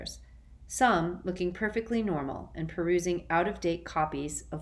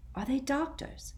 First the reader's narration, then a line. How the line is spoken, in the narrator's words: he asked Ron quietly